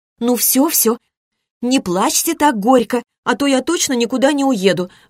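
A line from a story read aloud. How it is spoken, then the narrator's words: Girl pleading. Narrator (Russian): взмолилась девушка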